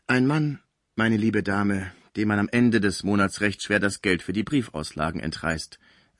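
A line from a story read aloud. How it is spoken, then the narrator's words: Plain. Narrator (German): sagte die Pförtnerin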